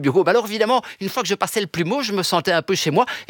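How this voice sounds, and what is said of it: Belgian French accent. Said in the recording (French): “On vous entend avec un accent belge”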